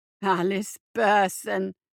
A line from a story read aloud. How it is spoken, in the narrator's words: he growled